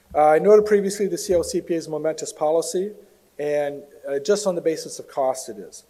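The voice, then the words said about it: Strained, failing voice. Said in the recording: “I've been working on losing my voice for a couple of days, so I need to hang on to it for a couple more hours here”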